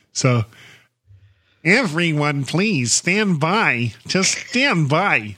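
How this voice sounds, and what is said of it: Bad imitation, nerdy kind of voice. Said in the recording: “a really bad Peter Lorre imitation ... Or is it just a nerdy kind of voice?”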